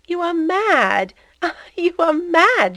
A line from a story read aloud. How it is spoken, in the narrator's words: she said, with sounding little laughs